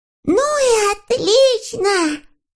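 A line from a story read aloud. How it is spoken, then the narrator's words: Shouted. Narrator (Russian): закричал Сниф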